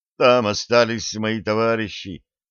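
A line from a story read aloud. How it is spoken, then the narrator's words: Moaning. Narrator (Russian): Он застонал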